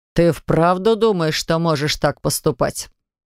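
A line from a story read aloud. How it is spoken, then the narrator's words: Plain. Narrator (Russian): спросил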